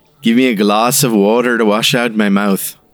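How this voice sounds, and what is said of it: Poor put-on accent. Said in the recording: “this pathetic accent”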